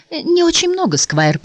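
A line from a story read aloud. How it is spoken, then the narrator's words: Timid babble. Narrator (Russian): пролепетала миссис Трофликер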